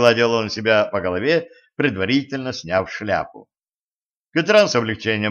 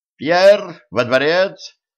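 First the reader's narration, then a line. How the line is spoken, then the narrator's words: Shouting. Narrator (Russian): закричал секретарь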